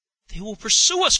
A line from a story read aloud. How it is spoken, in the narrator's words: cried the impatient Henry